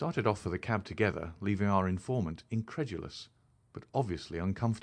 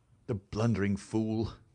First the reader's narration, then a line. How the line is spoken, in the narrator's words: Holmes said bitterly